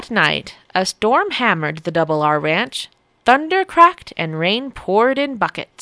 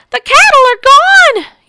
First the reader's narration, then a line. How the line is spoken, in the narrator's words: yelled Rancher Rose